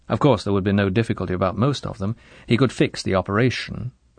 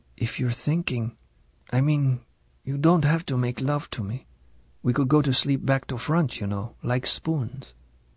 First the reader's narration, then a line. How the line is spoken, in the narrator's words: almost in a whisper